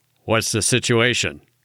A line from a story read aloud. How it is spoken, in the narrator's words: he asked in a Joe Friday voice